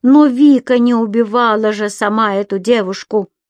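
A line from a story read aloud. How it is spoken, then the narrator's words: Wife's shout. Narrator (Russian): выкрикнула жена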